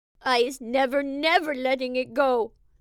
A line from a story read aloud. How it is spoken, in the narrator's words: the BFG cried